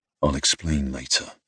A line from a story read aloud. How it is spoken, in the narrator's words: I muttered